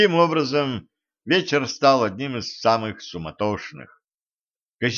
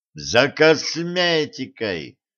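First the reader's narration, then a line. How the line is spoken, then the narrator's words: Joyful exclamation. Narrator (Russian): радостно вспомнил Кощей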